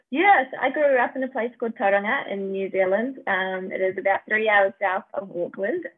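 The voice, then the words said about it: New Zealand accent. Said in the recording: “obviously I hear an accent.”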